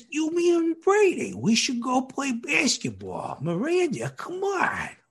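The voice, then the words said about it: Raspy New Yorker character voice. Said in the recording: “has a very distinct voice ... he talks like this ... the quintessential, you know, raspy New Yorker”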